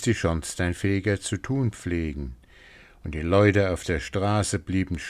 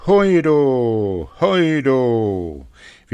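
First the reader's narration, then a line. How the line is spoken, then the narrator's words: Loud call. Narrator (German): rief so laut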